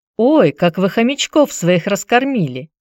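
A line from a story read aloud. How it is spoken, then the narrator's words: Surprised delighted exclamation. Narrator (Russian): Удивленно-восторженно воскликнула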